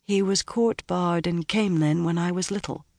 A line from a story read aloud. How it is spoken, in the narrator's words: she said quietly